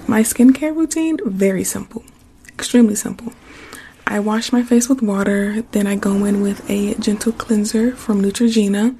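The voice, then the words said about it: Slightly hoarse speaking voice. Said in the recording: “I'm a little hoarse ... I think I've been whispering a little bit too much, and my voice is a little hoarse.”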